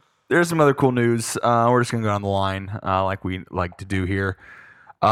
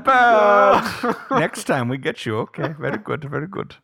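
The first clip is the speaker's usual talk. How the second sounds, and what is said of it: Exaggerated put-on European accent. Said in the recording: “It's my offensive European accent. ... It's very offensive.”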